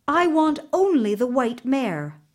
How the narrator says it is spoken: she replied

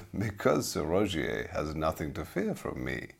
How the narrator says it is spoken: laughed the man

